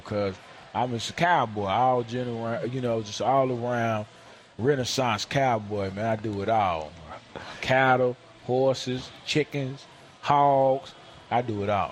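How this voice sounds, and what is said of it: Rural Southern country accent. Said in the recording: “some people say, you know, I have a country accent”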